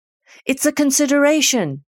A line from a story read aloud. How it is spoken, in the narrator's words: yelled Jane Doe